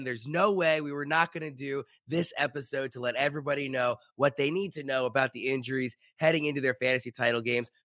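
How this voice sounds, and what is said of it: Sick, under-the-weather voice. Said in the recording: “you can probably tell from my voice, everybody listening can tell from my voice, that I am under the weather ... this cold”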